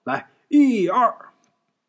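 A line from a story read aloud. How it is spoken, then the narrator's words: Calling out count. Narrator (Chinese): 陈老三 喊号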